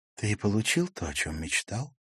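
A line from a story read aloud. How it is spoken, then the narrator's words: Whispered. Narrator (Russian): прошептала Ракель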